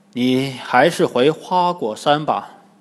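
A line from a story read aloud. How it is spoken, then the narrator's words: Sighing. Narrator (Chinese): 唐僧叹口气，对悟空说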